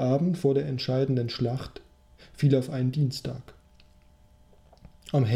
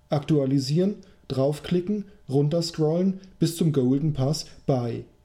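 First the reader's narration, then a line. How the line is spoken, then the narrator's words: Reminding call. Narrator (German): rief noch einmal ins Gedächtnis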